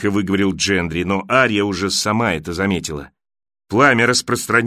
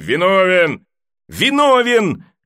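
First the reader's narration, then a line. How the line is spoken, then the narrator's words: Shouting with crowd. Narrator (Russian): кричала со всеми Ария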